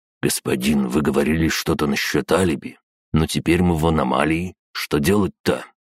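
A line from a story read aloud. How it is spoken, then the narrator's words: Whispered. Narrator (Russian): Воробьев шепнул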